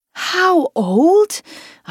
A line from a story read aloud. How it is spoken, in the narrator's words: gasped